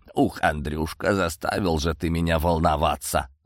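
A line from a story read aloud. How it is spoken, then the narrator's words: Grumbling. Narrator (Russian): заворчал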